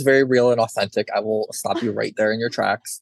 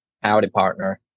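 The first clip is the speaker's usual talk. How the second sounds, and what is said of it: Put-on deep Southern accent. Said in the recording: “my authentic Southern, deep Southern, mind you, accent”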